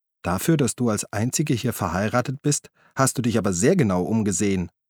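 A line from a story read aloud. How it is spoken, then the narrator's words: Plain. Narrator (German): sagte Elfie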